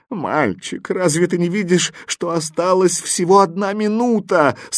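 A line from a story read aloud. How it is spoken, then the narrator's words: Tearful question. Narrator (Russian): сквозь слезы спрашивал вопросительный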